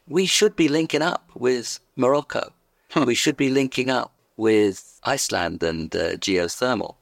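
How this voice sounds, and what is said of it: London English accent. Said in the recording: “you could tell by my accent where I come from, indeed London”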